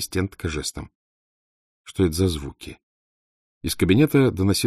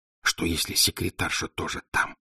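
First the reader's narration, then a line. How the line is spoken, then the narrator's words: Whisper right in ear. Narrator (Russian): шепнул Николас в самое ухо Валентине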